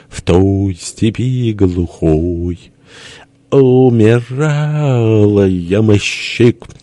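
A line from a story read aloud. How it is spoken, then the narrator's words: Trio singing, bass, hoarse, tearful. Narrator (Russian): запели втроем Бенедикт басом, Никита Иванович больше хрипом, а Лев Львович высоким таким голосом, душевным, распрекрасным, со слезой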